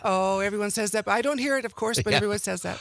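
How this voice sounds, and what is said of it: Canadian or Upper Peninsula-sounding accent. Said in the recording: “Hard telling she's from Canada, right? That accent. ... You sound like you're from the UP.”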